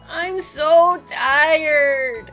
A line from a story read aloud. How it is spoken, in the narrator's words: he moaned